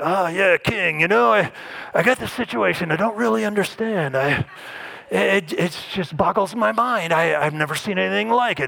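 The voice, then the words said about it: Poorly done character voice. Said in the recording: “terrible impersonation”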